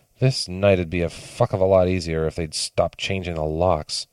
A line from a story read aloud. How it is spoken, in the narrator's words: she muttered